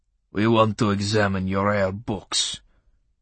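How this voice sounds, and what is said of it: Clipped Russian accent. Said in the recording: “in his clipped Russian accent.”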